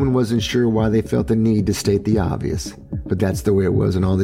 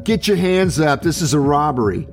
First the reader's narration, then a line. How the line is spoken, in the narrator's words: shouting